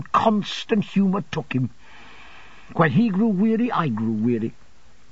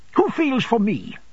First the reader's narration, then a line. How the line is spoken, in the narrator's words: she sharply retorted